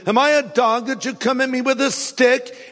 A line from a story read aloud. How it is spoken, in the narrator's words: He roared at David